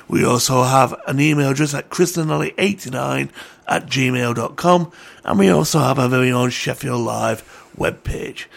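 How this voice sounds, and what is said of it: Strained, fading voice. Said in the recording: “I'm losing my voice here. And I think it's because of the heat”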